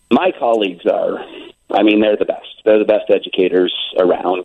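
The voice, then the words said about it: Choked up, emotional voice. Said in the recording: “I'm going to try not to get choked up.”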